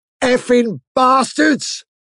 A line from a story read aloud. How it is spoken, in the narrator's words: with a yell of